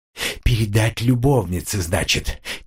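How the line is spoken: Quiet whisper. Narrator (Russian): тихо прошептал

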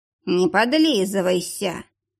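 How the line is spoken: Purring cat. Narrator (Russian): мурлыкнул кот

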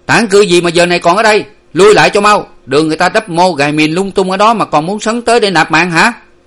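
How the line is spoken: Shouted rebuke. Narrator (Vietnamese): Có tiếng quát lại

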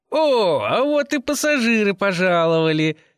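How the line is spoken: Guffawing big man. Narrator (Russian): хохотнул высоченный бородач

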